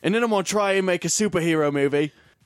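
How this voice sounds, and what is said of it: Bad put-on Australian accent. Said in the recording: “that was like the most horrible Australian accent I've ever done.”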